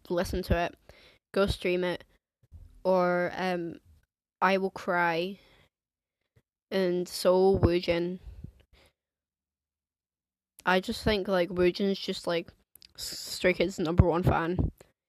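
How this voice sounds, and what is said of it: Posh English accent. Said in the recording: “I live in Scotland ... but I have, like, an English accent ... you posh twat”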